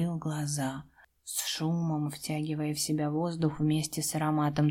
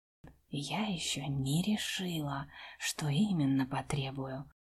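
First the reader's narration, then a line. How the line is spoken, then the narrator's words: Whisper. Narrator (Russian): прошептала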